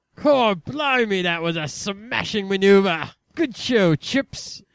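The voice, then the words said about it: Exaggerated put-on English accent. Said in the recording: “It's time to scream in English ... I don't have an English accent. I'm from England.”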